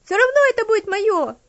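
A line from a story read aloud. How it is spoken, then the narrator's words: Demanding child's shout. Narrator (Russian): требовательно крикнула девочка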